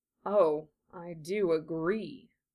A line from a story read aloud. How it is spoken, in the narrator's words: said Prince Filian, his voice gone even more soft and luxuriant, almost like a cat's purr